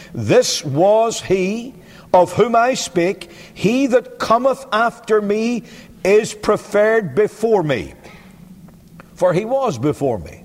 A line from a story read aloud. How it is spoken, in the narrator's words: John bare witness and cried, saying